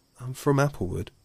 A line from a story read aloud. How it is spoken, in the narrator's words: sighed the fox